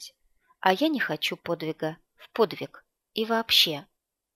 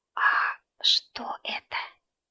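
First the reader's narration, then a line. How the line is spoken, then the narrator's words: Whispered question. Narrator (Russian): Поинтересовалась я шепотом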